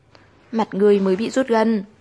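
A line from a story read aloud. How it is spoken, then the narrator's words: Angry muttering. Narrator (Vietnamese): Tư Nhược Lan tức giận quay đầu đi, trong miệng lẩm bẩm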